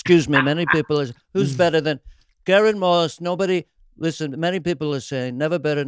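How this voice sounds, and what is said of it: Imitates another person's voice. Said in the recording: “You got Trump and Biden at the end. ... I love your impression, man.”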